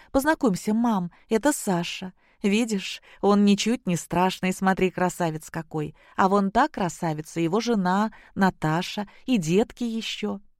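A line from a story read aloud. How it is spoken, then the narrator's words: Joyful. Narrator (Russian): Зоя сказала радостно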